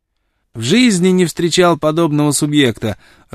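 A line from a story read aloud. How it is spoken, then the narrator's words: Joyful exclamation. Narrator (Russian): радостно воскликнул он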